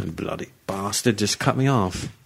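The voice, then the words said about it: Put-on British accent. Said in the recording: “you're just going to a British accent.”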